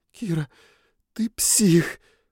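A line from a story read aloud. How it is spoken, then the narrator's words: Horrified breathless exclamation. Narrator (Russian): выдохнула Триш с ужасом в голосе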